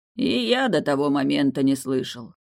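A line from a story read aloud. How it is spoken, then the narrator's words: Gloomy reply. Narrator (Russian): мрачно отозвался Далиль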